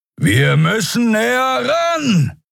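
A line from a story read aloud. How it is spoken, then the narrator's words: Shouted over roaring wind. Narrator (German): rief Kero über den heulenden Fahrtwind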